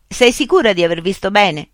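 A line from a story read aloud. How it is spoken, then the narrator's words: Shouted. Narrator (Italian): gridò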